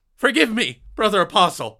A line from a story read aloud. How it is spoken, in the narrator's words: Micah yelped